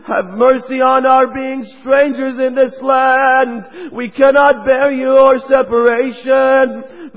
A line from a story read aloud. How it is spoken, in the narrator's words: pleaded to him